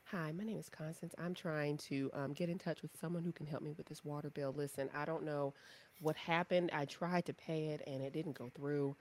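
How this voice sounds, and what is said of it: Polite customer service voice. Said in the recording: “code switch. Put on your customer service voice.”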